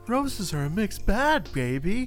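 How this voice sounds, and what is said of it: Austin Powers impression, sounds like Mark Wahlberg. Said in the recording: “I was gonna try to do Austin Powers ... That's Mark Wahlberg doing it ... that's Mark Wahlberg doing an Austin Powers impression”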